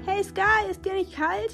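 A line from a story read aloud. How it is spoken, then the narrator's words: Calling out. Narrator (German): rief einer der Klamottenberge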